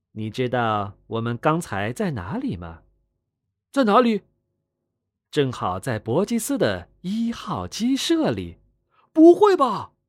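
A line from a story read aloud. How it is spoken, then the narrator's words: Mysterious low voice. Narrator (Chinese): 狐狸先生 神秘的低声道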